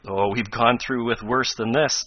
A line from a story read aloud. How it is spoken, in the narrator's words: laughed Tom